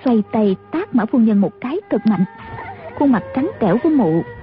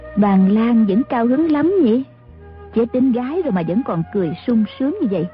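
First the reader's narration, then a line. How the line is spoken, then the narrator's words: Smiling woman. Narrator (Vietnamese): Mã phu nhân mỉm cười nói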